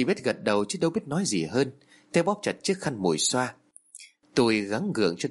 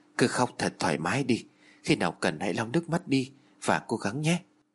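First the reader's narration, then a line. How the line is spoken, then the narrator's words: Soft, gentle. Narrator (Vietnamese): Hiếu khẽ nói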